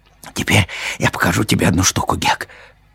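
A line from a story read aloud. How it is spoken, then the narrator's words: Whisper. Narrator (Russian): шепнул Том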